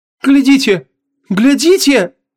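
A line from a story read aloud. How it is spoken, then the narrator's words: Sudden cry. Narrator (Russian): вскрикнул кто-то в свите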